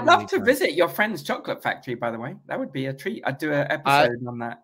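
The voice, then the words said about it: British accent. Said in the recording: “I used to hate the British accent until I met you.”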